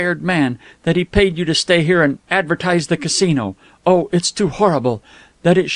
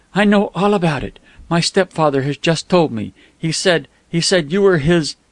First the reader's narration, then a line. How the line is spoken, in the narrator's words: She choked